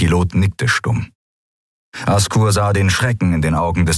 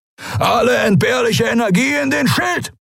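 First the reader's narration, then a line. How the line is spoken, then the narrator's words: Roaring command. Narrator (German): brüllte Askur von den Kemcha'an in den Kubus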